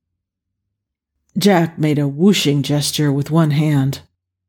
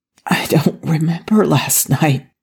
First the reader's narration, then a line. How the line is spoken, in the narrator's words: he whispered